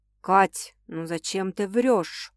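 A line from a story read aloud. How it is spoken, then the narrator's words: Sudden quiet question. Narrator (Russian): Вдруг тихо спрашивает Никита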